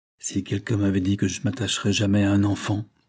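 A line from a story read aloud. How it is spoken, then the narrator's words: Low indistinct murmur. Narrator (French): murmura-t-il d'une voix basse et indistincte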